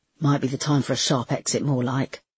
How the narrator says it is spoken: muttered Brickle

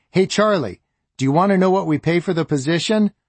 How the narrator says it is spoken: shouted to Charlie

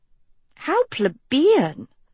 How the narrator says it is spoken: murmured Sophie

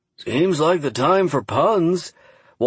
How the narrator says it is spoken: Walter Bird sighed

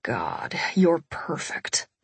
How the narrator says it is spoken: my husband muttered

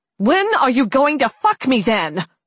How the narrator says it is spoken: She screamed at him

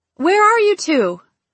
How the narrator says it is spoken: she asked, her voice slightly raised

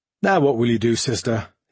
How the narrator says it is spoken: he asked in a light tone

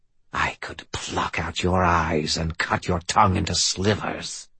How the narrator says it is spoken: hissed the voice

